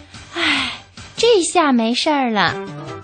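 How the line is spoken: Panting heavily. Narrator (Chinese): 哥哥们喘着粗气说

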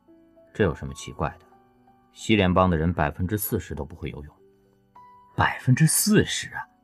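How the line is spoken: Calm, flat explaining. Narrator (Chinese): 他的声音，淡淡的解释着

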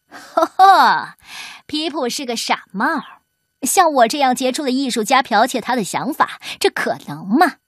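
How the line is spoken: Sneering old man. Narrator (Chinese): 老伦佐冷笑道

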